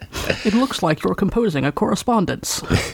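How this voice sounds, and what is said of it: Bad Scottish-accented celebrity impression. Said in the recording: “our terrible, terrible Sean Connery impersonations ... Yeah, that was super bad.”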